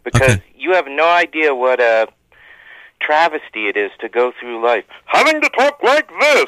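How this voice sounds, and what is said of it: Loud, abrasive announcer character voice. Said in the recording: “character voice. I'm doing a character voice ... people find you too loud, like too abrasive”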